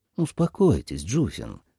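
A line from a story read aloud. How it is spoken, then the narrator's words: Soft, gentle. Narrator (Russian): мягко сказал Кофа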